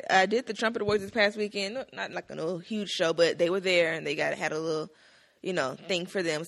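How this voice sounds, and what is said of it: Slightly raspy voice. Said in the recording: “my voice is a little raspy, ... I need some little tea or something”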